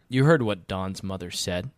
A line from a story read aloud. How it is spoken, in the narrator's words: says Mr